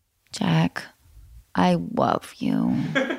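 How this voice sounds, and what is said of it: Crackly vocal fry. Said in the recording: “what's that called when it crackles a little bit? It's called vocal fry”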